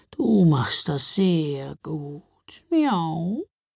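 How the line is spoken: Purring. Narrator (German): schnurrte sie

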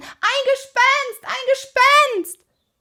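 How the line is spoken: High-pitched scream. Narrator (German): Und er schrie in den höchsten Tönen

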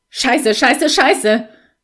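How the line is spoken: Exclamation. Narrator (German): rief er

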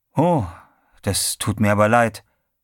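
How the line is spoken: Plain. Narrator (German): sagte Teddy

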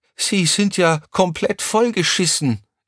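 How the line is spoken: Called out. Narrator (German): rief Crescentia Rausch

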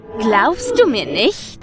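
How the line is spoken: Mocking. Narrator (German): fragte es spöttisch

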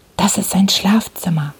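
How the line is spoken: Whisper. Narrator (German): flüsterte Holmes

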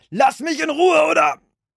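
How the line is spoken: Shouted. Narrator (German): schrie

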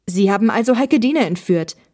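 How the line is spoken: Angry shout. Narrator (German): rief Olli wütend

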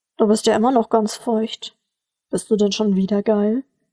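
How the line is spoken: Plain. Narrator (German): fragte Georg

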